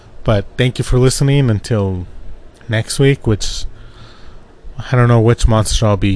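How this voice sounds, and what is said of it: Usual voice. Nothing is said of it.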